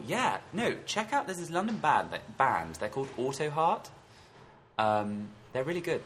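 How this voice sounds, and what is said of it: Strange, hard-to-understand accent. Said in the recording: “I have a strange accent. You may not have understood.”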